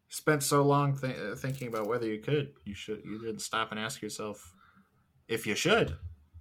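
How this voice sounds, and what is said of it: Jeff Goldblum impression. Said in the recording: “That was my Jeff Goldblum impression.”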